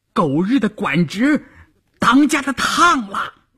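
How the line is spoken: Shouting. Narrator (Chinese): 有人喊

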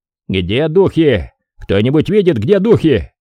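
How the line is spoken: Shouting. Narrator (Russian): крикнул ротный

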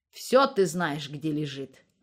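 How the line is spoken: Grumbling. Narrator (Russian): проворчала Макеевна

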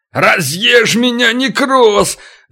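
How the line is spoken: Roar on impact. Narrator (Russian): взревел, ударившись о стену

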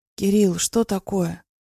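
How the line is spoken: Hoarse, strained voice. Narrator (Russian): Прохрипела севшим голосом

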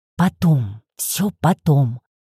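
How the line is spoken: Breathless exhale. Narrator (Russian): выдохнула я, переводя дыхание

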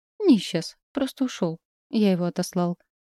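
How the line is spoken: Calm old man. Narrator (Russian): спокойно произнес странный старичок

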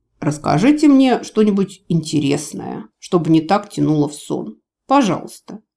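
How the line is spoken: Blissful purr. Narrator (Russian): промурлыкал канцлер, блаженно

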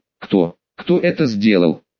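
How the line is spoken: Angry question. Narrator (Russian): спросил он зло

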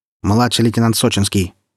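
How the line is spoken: Barked. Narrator (Russian): рявкнула Анискина

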